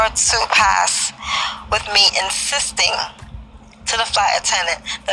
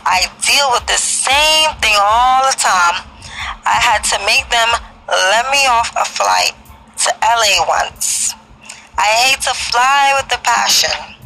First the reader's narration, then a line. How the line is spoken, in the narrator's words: said in her sweet southern drawl